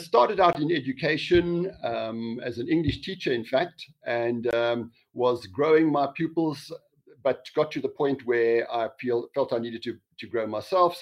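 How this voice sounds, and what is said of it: South African accent. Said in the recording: “got a lovely South African accent”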